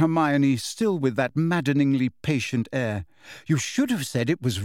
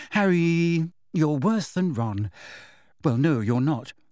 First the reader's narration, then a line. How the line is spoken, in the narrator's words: she sighed